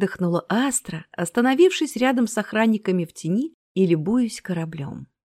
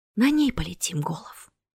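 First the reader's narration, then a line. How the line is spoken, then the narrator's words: Whisper. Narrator (Russian): прошептала Астра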